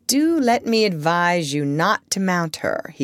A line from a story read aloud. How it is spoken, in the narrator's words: he said